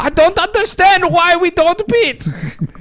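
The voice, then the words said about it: Valtteri Bottas impression. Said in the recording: “my Valtteri Bottas impersonation.”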